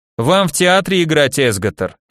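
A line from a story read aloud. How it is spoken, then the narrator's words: Snorting chuckle. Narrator (Russian): хмыкнул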